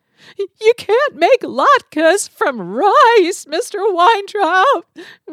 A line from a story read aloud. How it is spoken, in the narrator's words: Rachel sobbed